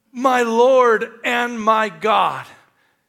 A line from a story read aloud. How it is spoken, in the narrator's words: as he exclaimed